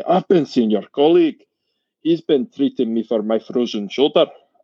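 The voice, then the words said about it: Thick put-on Scottish accent. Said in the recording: “the thickest Scottish accent I've heard ... this terrible accent.”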